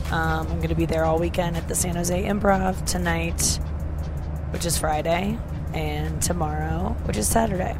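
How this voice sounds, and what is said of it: Very soft, quiet speaking. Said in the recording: “I might sound a little weird right now because I'm talking very softly because I'm on an airplane”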